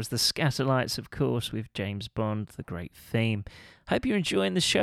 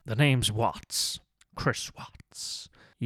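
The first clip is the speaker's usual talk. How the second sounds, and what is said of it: Bad James Bond impression. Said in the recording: “my very bad James Bond impression”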